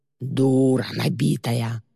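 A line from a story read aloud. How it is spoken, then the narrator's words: Roaring. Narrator (Russian): проревел Боди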